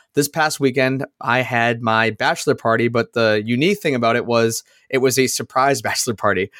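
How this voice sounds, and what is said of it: Slightly raspy voice. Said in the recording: “my voice is a little bit raspy.”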